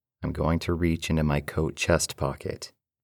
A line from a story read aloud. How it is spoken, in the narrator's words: replied calmly